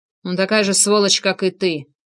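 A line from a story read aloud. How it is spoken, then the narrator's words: Muttered through clenched teeth. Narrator (Russian): процедил Тарасов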